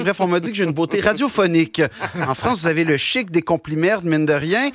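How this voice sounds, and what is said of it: Québécois French accent. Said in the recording (French): “j'ai un accent ... l'accent québécois”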